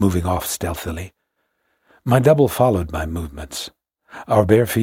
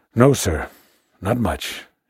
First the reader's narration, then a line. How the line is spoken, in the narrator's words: he assented sleepily in his hoarse voice, with just enough deference, no more, and barely suppressing a yawn